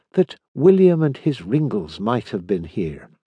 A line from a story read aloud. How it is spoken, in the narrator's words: he murmured to Jack in a moment's pause